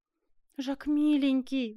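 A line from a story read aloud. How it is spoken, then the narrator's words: Pleading. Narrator (Russian): взмолилась Жервеза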